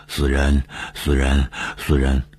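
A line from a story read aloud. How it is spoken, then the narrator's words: Panting, sinister muttering. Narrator (Chinese): 喘着粗气，长久的狞笑，嘴里嘟囔着说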